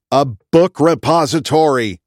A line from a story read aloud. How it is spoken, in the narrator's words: I exclaimed